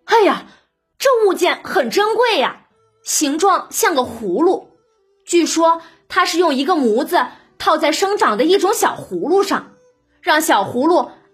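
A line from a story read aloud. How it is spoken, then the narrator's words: Sighing. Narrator (Chinese): 宝玉见了，叹道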